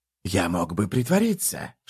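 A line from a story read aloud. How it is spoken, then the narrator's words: Whisper. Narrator (Russian): шепнул Прыщ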